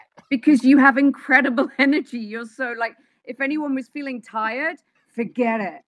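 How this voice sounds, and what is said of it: English accent, London. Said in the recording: “You got an accent... I'm originally from England... So, London, but in London, I'm from Wimbledon.”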